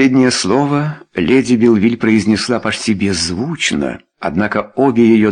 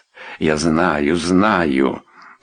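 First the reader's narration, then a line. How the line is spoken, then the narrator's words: Muttering. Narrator (Russian): пробормотал сэр Эдвард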